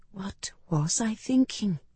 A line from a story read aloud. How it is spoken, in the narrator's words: I whispered